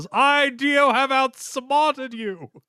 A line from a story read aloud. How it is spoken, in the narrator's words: completely pulverized, beaten, and desecrated looking Dio that yells